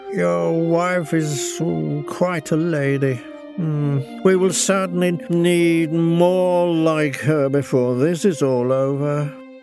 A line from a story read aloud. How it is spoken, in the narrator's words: in a very slurred voice, Ogilvy turned to me and said